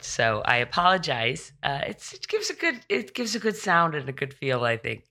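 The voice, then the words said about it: Froggy, hoarse voice. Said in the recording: “I did catch COVID ... my voice is still very froggy and very. Uh, it in my throat.”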